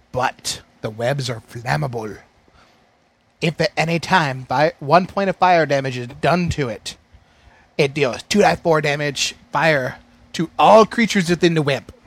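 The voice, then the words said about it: Switching between several put-on accents. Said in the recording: “That was like another accent. ... I'm going on 5 accents for the one reading of web. ... It was diverse, baby.”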